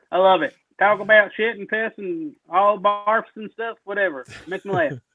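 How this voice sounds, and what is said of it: Southern twang accent. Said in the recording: “Southern twang coming out of there... it's a great twang”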